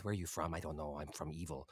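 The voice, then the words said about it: Hissing, weird character accent. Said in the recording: “He had this sort of hissing, sort of weird, sort of accent.”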